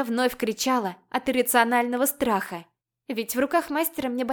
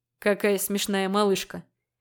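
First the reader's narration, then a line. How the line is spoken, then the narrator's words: Grumbling dragon, chuckling. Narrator (Russian): Ворчал дракон, посмеиваясь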